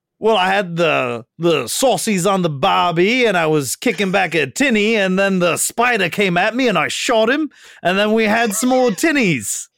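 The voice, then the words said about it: Exaggerated put-on Australian accent. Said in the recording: “that sick Australian accent ... You weren't quite as inflecty”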